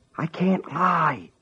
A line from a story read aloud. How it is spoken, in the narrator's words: he whispered into the telephone